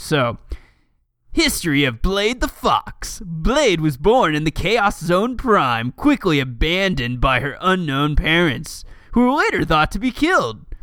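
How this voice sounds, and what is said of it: Put-on Sega character voice. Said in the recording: “I'm going to do this in my Sega voice”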